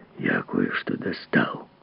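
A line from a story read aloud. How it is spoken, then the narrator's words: Hoarse whisper. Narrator (Russian): хриплым шепотом сказал писатель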